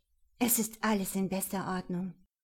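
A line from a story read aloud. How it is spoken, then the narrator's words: Slightly hoarse voice. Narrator (German): Mit leicht angerauter Stimme sagte ich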